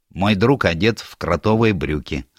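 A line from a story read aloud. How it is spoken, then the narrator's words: Plain reply. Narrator (Russian): ответил Перьеголовый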